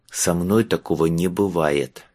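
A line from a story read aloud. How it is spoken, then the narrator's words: Through gritted teeth. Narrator (Russian): процедил Майлз сквозь зубы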